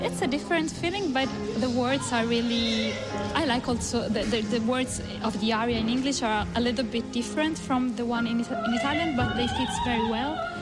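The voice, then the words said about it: Imperfect non-native English accent. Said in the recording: “my accent maybe is not really the most perfect one”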